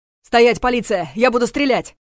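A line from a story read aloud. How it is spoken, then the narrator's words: Shouted command. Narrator (Russian): крикнул он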